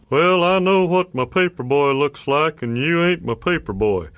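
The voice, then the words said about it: Texas drawl, older man's voice. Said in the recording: “every middle-aged authority figure had a Texas accent.”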